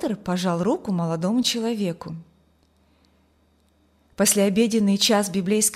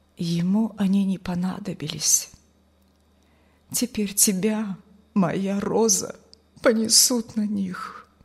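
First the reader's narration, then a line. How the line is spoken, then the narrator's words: Quiet, tearful. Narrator (Russian): пан Николай со слезами на глазах тихо повторил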